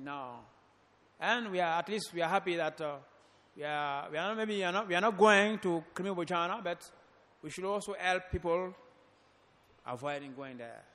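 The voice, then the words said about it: French accent. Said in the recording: “my accent is a bit difficult because I'm from a French-speaking country ... My accent is French accent.”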